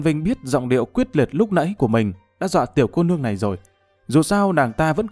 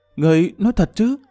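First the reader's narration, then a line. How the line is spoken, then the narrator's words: Trembling question. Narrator (Vietnamese): Tiêu Ngọc Sương run rẩy hỏi lại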